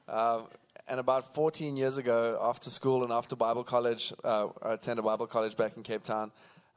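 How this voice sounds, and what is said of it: South African accent. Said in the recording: “born and raised in Cape Town in South Africa. That's why we talk funny... so that's the southern accent you're hearing”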